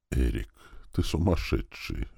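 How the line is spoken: Woman's quiet yielding whisper. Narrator (Russian): уже тихо прошептала женщина, потихоньку сдаваясь

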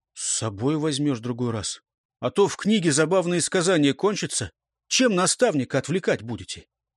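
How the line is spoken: Sighing. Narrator (Russian): Эрелис вздохнул

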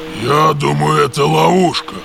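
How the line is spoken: Menacing. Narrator (Russian): грозно насупился Гронк

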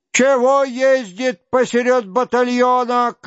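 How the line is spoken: Shouted. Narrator (Russian): крикнул

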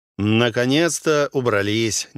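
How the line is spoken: Displeased grumble. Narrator (Russian): недовольно проворчал Арау

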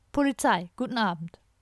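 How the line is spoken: Plain. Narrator (German): sagte eine Stimme

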